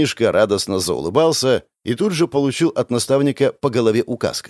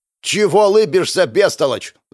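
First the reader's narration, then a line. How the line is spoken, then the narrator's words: Yelling. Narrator (Russian): заорал тот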